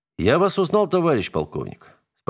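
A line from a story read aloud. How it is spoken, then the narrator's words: Calm but disappointed. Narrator (Russian): спокойно ответил Семенов, но разочарование в голосе скрыть не сумел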